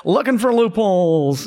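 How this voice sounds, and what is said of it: Bad W.C. Fields impression. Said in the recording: “bad impersonation”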